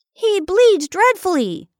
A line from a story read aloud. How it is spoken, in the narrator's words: exclaimed Bertie